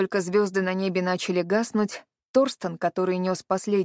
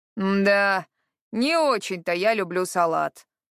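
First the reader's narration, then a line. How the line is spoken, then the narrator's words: Grumbling. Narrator (Russian): пробурчал Харад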